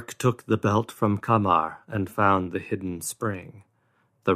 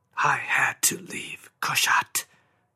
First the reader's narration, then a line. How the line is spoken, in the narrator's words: Kamar whispered